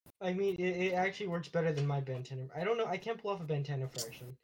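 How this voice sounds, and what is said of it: Usual voice. Nothing is said of it.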